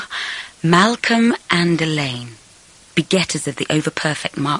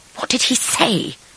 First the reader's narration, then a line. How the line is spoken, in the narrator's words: I hissed, suddenly suspicious